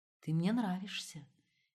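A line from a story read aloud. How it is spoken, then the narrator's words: Whispered. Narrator (Russian): тем не менее зашептал он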